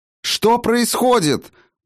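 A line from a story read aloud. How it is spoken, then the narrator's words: Shouted close to ear. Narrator (Russian): прокричала Райна почти в самое ухо отцу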